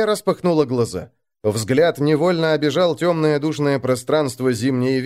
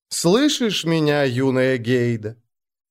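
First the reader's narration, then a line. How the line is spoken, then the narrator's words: Familiar ingratiating voice. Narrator (Russian): Знакомый голос вкрадчиво произнес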